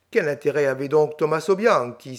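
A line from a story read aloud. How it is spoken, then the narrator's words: Triumphant exclamation. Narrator (French): s'écria Colomba d'un air de triomphe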